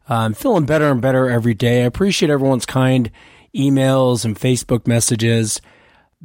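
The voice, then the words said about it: Sick, cold-affected voice. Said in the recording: “As you can tell from my voice, I'm still fighting this cold. ... You'll just have to please excuse my voice tonight.”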